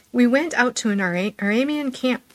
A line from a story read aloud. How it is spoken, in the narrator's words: said